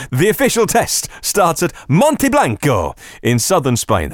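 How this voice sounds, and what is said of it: Poor put-on Spanish accent. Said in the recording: “That's the worst Spanish accent ever.”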